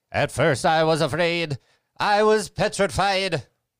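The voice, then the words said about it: Sings with a put-on accent. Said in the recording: “Shouldn't have done that with an accent.”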